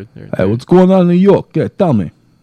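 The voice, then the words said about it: Put-on New York accent. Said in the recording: “I don't have a good New York accent. You have one, right? ... There we go. ... That was good.”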